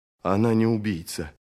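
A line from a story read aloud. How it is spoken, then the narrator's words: Mutter. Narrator (Russian): пробормотал он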